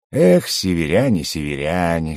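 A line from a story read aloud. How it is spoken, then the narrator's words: Wistful mutter. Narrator (Russian): с тоской пробормотал барон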